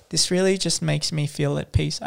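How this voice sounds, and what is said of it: Ironic, mock-sincere voice. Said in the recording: “doing my ironic voice”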